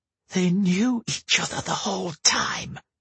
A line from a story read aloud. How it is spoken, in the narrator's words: she hissed